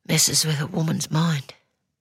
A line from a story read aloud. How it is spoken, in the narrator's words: Her voice almost inaudible, she says